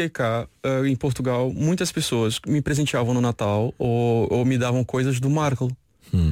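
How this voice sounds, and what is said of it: Usual voice. Nothing is said of it.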